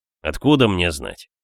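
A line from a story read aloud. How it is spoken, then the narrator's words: Annoyed grumble. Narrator (Russian): Проворчал я с досадой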